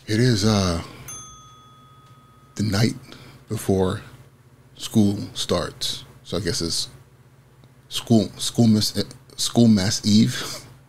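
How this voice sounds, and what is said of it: Raspy voice. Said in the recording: “my voice gets immediately raspy.”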